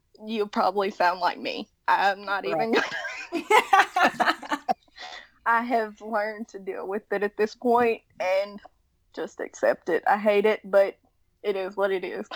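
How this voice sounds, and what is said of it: Southern American drawl. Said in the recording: “that has a Southern accent ... They have a Southern drawl, not a Southern accent ... You could say Southern twang ... it's very distinct”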